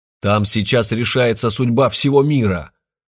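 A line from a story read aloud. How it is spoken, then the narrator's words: Angry shout. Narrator (Russian): злобно крикнул ему Олег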